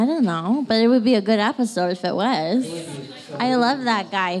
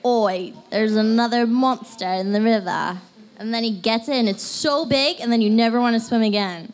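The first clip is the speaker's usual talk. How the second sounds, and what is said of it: Put-on British accent. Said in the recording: “Did you like my British accent? ... That was about as good as Kevin's British accent”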